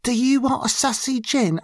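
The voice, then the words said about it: Deliberately bad put-on English accent. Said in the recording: “I'm doing a horrible English accent.”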